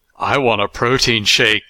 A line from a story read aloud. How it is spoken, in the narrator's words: she sighed